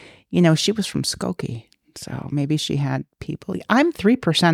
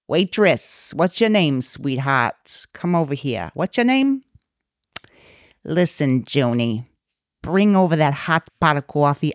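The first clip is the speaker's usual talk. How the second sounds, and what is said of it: Put-on New York accent. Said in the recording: “that is a wonderful New York accent ... Well, it's not perfect, but it's pretty damn good.”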